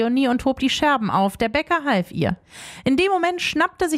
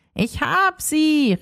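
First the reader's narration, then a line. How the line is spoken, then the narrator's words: Calling from afar. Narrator (German): rief Rumpel von Weitem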